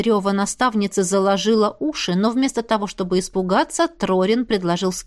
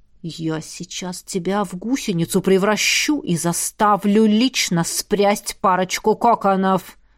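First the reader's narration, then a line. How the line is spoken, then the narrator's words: Growling, menacing. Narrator (Russian): а в голосе проскользнули рычащие нотки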